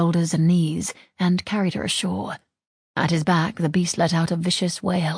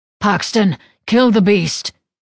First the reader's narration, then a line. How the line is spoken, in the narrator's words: Leaf bellowed